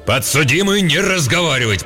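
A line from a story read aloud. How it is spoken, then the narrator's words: Roared. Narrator (Russian): проревел судья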